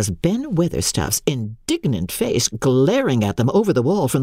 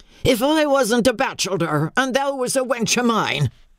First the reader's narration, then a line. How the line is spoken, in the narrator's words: he cried